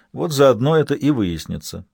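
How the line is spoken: Dry reply. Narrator (Russian): сухо ответил Хорь

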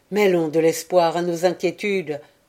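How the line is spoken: Exclaiming. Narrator (French): s'exclama-t-il

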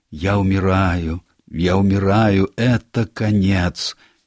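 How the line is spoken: Moaning, dying. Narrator (Russian): Тимоти стонал и говорил

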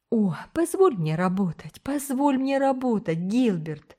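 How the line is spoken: Agitated pleading. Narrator (Russian): взволнованно умоляла

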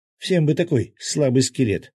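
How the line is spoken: Indignant shout, fairy. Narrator (Russian): возмущенно крикнула кружащая над нами фея

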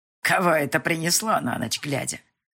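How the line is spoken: Grandmother's angry grumble. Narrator (Russian): Сердито заворчала бабуля

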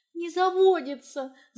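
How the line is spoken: Frustrated whine. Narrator (Russian): заскулила я после десятой попытки справиться с зажиганием

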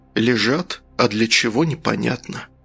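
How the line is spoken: Whisper. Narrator (Russian): прошептал следователь

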